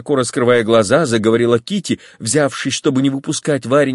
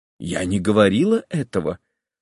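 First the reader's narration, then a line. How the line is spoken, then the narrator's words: Calm. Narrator (Russian): спокойно сказала Варенька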